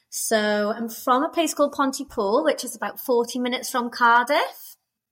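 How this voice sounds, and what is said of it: Strong Welsh accent. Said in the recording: “a very strong Welsh accent”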